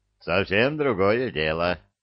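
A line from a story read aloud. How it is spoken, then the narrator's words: Satisfied snort. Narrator (Russian): удовлетворенно хмыкнул Илья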